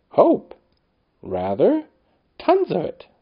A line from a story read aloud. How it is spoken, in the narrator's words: said father, cheerfully